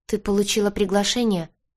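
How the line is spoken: Dejected question. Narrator (Russian): уныло спросила Гэлли

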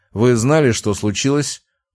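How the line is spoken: Dry reply. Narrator (Russian): ответил сухо

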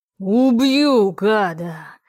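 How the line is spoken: Growling. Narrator (Russian): Тьен точно зарычал

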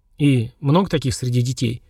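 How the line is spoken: Trembling question, a colonel. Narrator (Russian): дрогнувшим голосом спросил полковник

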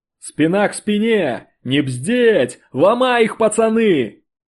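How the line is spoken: Yelling. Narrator (Russian): Орал баржа

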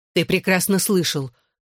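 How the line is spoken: Snapping retort. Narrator (Russian): огрызнулась она

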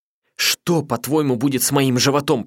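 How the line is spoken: Shouted, voice breaking. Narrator (Russian): прокричала она срывающимся голосом

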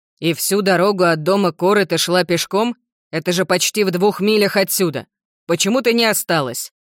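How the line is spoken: Irritated, sharp. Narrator (Russian): Томас раздраженно говорит резко

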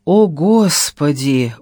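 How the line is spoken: Exhausted exhale. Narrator (Russian): выдохнула и без сил

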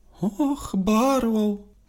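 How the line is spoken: Cooing. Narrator (Russian): проворковала Милена Каро Пунцовея

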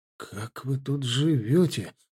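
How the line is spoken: Muttered under breath. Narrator (Russian): пробормотал себе под нос

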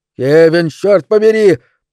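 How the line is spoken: Roaring. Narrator (Russian): проревел мистер Делевин

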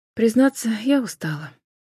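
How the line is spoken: Soft interjection. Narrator (Russian): мягко вклинилась Джен

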